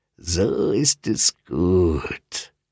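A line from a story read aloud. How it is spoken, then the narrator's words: Cooing monster. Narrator (German): säuselte das Monster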